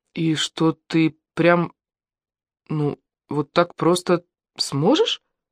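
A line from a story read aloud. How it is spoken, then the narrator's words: Amazed stammering. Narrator (Russian): Алена от изумления даже заикаться начала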